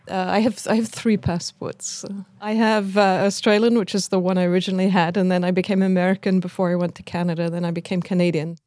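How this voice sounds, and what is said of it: Speaks with an accent. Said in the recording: “And she too has an accent.”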